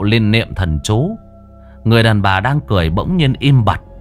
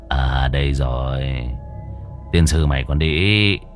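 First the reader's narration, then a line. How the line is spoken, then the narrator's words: Mutter. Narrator (Vietnamese): Môn Phọt lẩm bẩm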